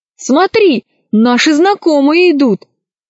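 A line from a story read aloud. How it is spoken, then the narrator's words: Shout. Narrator (Russian): закричал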